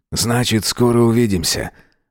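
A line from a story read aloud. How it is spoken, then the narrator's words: Cheerful answer. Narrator (Russian): отвечает весело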